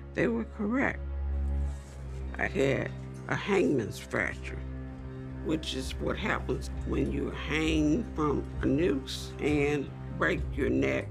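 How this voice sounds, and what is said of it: Higher, squeaky voice. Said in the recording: “I sound different is because I was intubated for 6 weeks. My voice is now higher and squeakier.”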